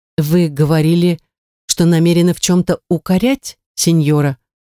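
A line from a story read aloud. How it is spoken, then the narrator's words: Timid. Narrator (Russian): Робко промолвила Эмилия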